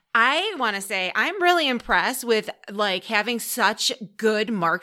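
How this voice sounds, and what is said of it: Usual voice. Nothing is said of it.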